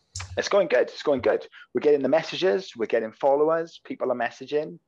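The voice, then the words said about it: Welsh accent. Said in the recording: “I'm Welsh, so I've got a Welsh accent ... I cut a lot of words short in Welsh”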